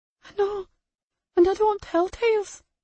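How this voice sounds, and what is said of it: Shaky childlike voice. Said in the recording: “shaky baby voice”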